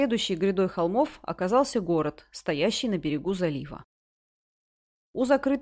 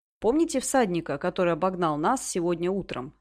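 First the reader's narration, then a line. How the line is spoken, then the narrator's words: Plain. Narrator (Russian): спросил Асфальт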